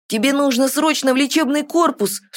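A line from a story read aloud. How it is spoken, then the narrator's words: Alarmed exclamation. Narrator (Russian): встревоженно воскликнул Тин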